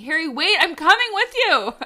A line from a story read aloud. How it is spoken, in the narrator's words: I hear Michelle yelling to me